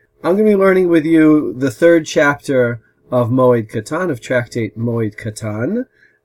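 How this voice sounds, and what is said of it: American accent. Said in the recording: “as you can tell from my American accent,”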